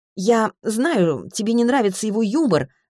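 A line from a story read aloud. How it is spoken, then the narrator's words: Irritated. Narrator (Russian): раздраженно говорит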